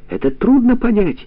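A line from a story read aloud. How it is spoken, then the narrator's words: Shouting. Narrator (Russian): уже кричала Милка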